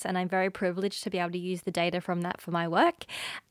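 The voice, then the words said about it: Australian accent. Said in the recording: “as you can hear from my accent, I'm from Australia originally”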